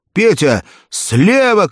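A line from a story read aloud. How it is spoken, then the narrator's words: Shout. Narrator (Russian): крикнул он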